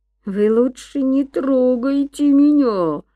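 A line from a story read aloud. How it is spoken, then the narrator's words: Howling. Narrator (Russian): взвыл Гай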